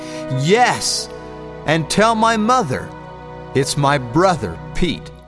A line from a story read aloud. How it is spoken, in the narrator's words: shout back